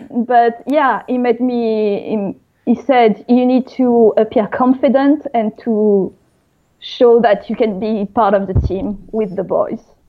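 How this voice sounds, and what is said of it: Speaks with a noticeable accent. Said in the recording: “I can't change my accent, even though I've been working on it.”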